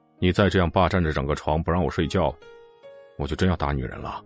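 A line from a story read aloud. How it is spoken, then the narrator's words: Calm male voice. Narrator (Chinese): 淡淡的男声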